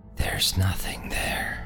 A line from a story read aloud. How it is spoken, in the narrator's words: muttered under my breath